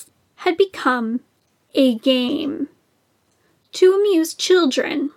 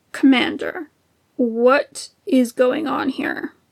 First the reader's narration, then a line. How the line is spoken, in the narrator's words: Sidious asked, his voice low and dangerous